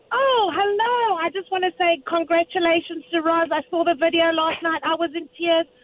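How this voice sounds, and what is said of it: South African accent. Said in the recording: “Is that a fake accent? ... No, it's not a fake accent. ... It's a South African accent. ... your beautiful South African accent.”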